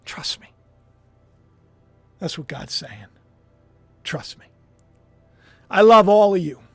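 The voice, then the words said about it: Emotional, choked-up voice. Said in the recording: “got a little emotional.”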